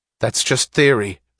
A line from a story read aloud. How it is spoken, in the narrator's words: snapped Wesley Mouch